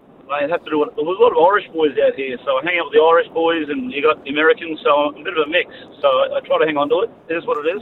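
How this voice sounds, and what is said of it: Australian accent. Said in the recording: “I detect an Australian accent... you haven't picked up an accent”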